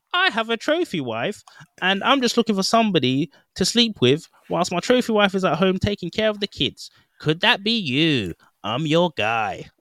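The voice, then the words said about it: Super nerdy imitated man's voice. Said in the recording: “doing this voice, but that's how he sounds, like super super freaking nerdy”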